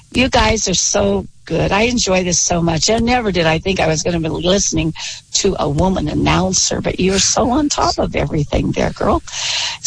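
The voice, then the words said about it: Husky, hoarse voice. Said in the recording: “with a sore throat and yelled at everything ... I'm coming out of that cold right now, so I sound a little husky.”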